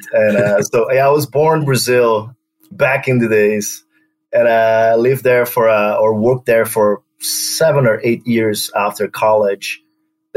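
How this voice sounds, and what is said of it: Brazilian accent. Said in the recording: “an accent that isn't a New York or a Chicago accent. ... my weird Brazilian accent.”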